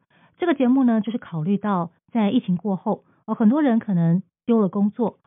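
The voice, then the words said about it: Professional radio broadcaster accent. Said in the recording (Chinese): “非常专业的广播口音”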